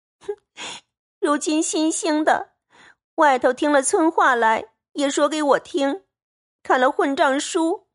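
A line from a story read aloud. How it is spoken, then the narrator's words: Crying. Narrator (Chinese): 黛玉便哭道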